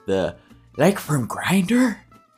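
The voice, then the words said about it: Poor imitation of another person's voice. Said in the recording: “That was a terrible Jennifer Coolidge impression.”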